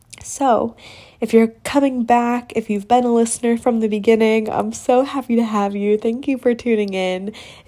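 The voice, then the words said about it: Congested, stuffy voice. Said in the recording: “hear in my voice, but I'm getting over a little sickness. So I apologize for any stuffiness on the mic.”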